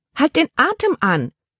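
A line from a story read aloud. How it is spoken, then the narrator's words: Aunt calling out. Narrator (German): rief ihre Tante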